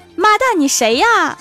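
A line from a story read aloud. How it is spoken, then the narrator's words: Girl shouting. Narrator (Chinese): 女孩醒了，大声叫道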